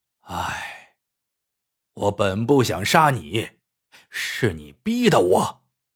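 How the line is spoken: Sighing. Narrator (Chinese): 吴瘸子叹了一口气

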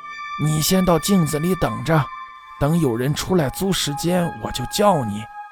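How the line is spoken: Soft, delighted old woman. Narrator (Chinese): 老太婆喜逐颜开地轻声说道

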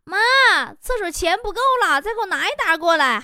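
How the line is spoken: Shouting. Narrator (Chinese): 艾尔文说，在厕所发现没有纸的时候，对着老妈大喊

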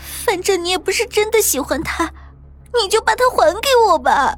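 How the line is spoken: Desperate pleading. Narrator (Chinese): 那个女生起初向院花苦苦的哀求

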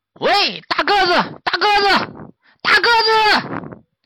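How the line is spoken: Louder and louder, angry shouting. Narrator (Chinese): 一声比一声喊得高，越喊越生气

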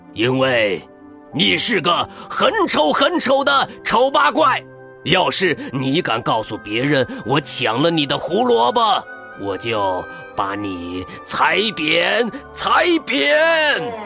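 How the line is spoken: Roaring angrily. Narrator (Chinese): 大坏兔 对着他大吼

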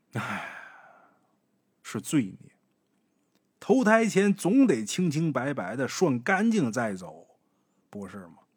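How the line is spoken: Old man's sigh. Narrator (Chinese): 方老头叹了一口气

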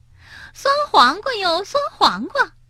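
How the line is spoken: Giggling. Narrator (Chinese): 苏琪咯咯的笑着

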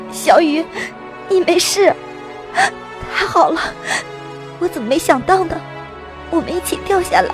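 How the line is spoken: Choked, surprised and joyful. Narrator (Chinese): 又是惊又是喜，声音都几近哽咽

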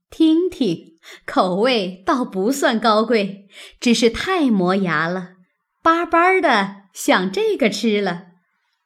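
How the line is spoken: Laughing. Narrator (Chinese): 凤姐笑道

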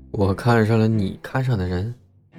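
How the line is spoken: Confused murmur. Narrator (Chinese): 黄毛很是迷茫，喃喃重复

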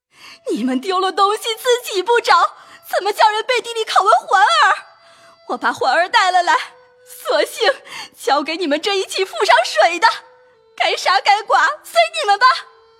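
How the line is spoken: Crying and wailing. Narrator (Chinese): 赵姨娘的声，哭着喊着走来说

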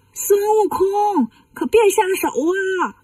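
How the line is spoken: Distant shout. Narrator (Chinese): 东北方向有人喊

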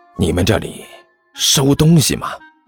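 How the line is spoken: Low, secretive. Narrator (Chinese): 甘球压低声音，神神秘秘地对那人说道

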